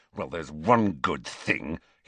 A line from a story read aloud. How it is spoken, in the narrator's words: said savagely